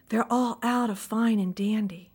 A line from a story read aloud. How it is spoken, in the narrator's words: he whispered